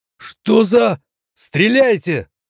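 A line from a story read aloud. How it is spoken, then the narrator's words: Hurried shout. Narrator (Russian): успел выкрикнуть Эдик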